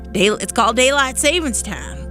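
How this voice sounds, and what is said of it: Put-on Southern accent. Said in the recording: “why do I have a southern accent? I really don't know. But I think I'm just channeling.”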